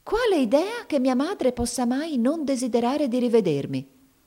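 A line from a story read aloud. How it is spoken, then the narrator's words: Flushed indignant exclamation. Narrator (Italian): esclamò Mamie, diventando di porpora in viso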